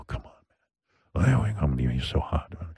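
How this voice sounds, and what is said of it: Put-on sexy, seductive voice. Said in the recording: “I have my sexy voice. ... This is creepy.”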